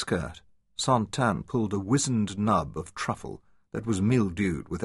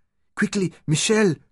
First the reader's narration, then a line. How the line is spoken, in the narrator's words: cried